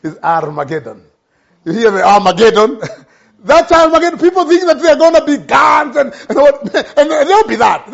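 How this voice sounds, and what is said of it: Strong non-native accent. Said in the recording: “My accent is so bad.”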